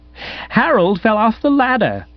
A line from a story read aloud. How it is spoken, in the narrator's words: explained, laughing heartily